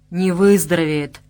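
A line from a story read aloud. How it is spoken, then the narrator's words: Grumbling. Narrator (Russian): проворчал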